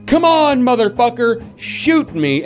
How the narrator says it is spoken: yelling

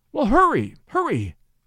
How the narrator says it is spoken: cried Mink

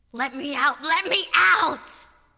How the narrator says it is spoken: screamed

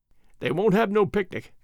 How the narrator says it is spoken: went on Alfred, with a little chuckle

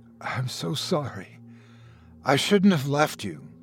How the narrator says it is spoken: he whispered shakily

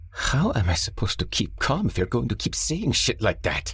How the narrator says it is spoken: Mo hissed

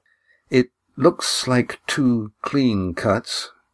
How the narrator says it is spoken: said Lindy, deliberately keeping her voice steady

